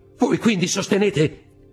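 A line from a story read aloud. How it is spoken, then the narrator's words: Exclamation. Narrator (Italian): esclamò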